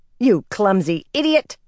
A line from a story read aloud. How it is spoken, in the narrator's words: Elida snapped